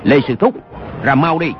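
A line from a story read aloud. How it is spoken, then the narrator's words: Shouted. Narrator (Vietnamese): Dư Triệu Hưng quát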